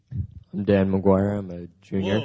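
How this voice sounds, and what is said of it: Very deep low-pitched voice. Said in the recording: “you took your deep voice pills this morning”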